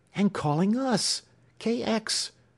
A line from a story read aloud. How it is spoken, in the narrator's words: cried Alex